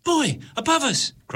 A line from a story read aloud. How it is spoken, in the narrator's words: cried Milena